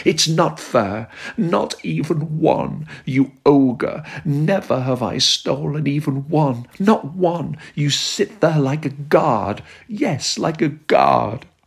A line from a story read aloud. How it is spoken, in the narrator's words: screamed at him